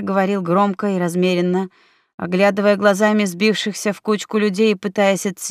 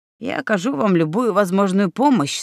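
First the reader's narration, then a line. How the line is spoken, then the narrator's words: Calm male reply. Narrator (Russian): спокойно ответил мужчина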